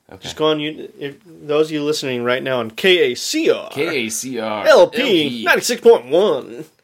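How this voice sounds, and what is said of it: Exaggerated radio announcer voice. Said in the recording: “That's my perfect radio voice.”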